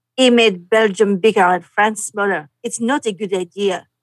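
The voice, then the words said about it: Put-on French accent. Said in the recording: “Read it with a French accent.”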